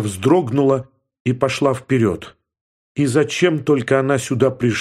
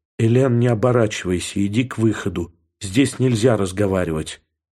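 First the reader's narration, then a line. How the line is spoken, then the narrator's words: Quiet. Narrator (Russian): тихо сказал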